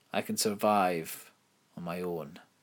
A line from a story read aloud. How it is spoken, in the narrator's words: Imelda said